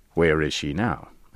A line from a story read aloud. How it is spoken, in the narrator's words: I asked